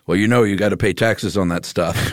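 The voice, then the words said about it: Stereotypical dad voice impression. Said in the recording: “great dad impression”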